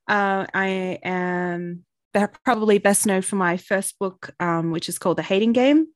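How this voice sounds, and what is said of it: Australian accent. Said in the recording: “I'm Australian, as you can probably tell from the accent.”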